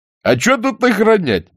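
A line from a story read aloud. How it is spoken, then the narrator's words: Young man laughing. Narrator (Russian): засмеялся второй, огненно-рыжий парень в папахе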